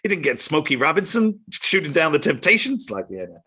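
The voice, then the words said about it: Poor Chris Rock impression. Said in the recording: “that's a terrible impression”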